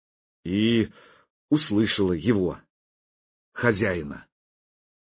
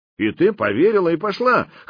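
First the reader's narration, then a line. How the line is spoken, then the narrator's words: Snorting. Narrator (Russian): хмыкнул Никита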